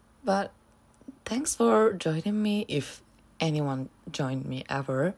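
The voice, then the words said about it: Sick, rough-sounding voice. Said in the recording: “I'm literally ill. My voice sounds, I don't know, shitty.”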